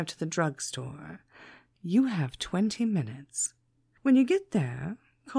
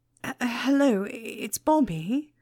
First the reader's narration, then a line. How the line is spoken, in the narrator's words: he stammered